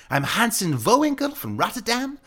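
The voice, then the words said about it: Exaggerated fake Dutch accent. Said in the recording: “I pretended to be a European exchange student from Rotterdam... I used like this ridiculous accent”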